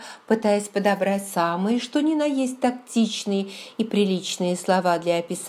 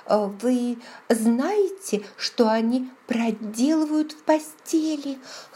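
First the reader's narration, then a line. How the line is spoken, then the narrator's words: Hoarse whisper. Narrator (Russian): хрипло прошептала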